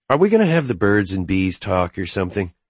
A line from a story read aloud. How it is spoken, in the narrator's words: I chuckled